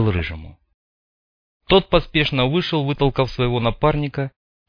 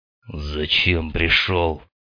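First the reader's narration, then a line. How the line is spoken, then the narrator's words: Rough question, gang leader. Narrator (Russian): грубо спросил глава группировки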